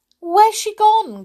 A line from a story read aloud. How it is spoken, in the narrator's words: cried Peter in fright